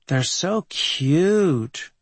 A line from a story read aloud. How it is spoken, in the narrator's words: drawled Andy of the band